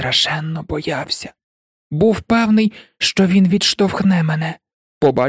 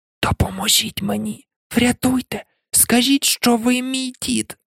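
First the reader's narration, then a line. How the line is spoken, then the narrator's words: Desperate whisper. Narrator (Ukrainian): в розпачі прошепотів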